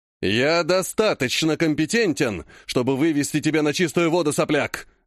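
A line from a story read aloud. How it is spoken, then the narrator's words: Barked. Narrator (Russian): рявкнул он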